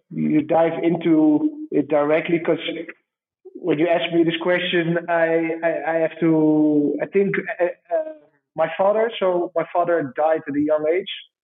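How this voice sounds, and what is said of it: Dutch accent in English. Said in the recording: “a Dutchie speaking English... my Dutch accent”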